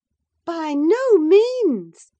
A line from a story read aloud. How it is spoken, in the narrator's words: cried Mrs